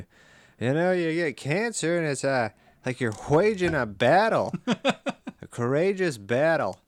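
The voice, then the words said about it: Norm impression. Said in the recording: “your Norm impression ... it has gotten significantly better.”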